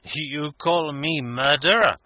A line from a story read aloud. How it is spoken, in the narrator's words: said Obenreizer with a grim laugh